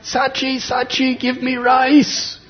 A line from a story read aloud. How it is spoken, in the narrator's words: Nitai just cried out